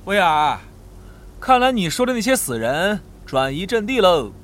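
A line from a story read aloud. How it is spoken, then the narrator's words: Laughing. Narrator (Chinese): 罗伊斯笑道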